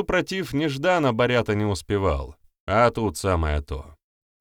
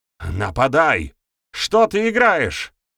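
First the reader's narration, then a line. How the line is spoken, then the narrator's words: Shaking, shouted outburst. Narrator (Russian): выкрикнул, наконец, гостята, которого уже трясло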